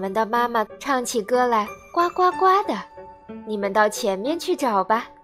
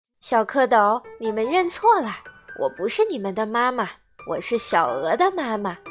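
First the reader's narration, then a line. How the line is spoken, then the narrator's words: Laughing. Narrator (Chinese): 大白鹅笑着说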